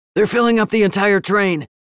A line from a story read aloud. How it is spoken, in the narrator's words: Kaysan rasped